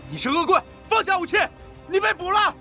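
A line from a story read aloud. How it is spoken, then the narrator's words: Trembling shout. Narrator (Chinese): 一名警卫颤抖着喊道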